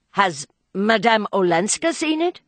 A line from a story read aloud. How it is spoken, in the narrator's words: Archer stammered, his brain whirling with the shock of the announcement